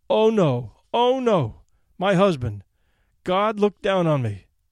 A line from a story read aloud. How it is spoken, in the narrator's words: she cried